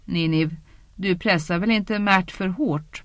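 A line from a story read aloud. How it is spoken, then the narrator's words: Laughing. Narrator (Swedish): Elaine skrattade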